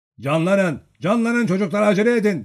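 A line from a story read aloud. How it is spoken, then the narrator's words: Shouting. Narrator (Turkish): diye bağırdı Nikolay Petrovic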